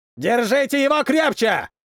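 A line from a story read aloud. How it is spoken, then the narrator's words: Yelling. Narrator (Russian): орал один из них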